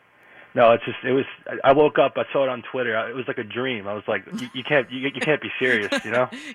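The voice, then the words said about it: New York accent. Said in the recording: “I guess that's the New York accent there.”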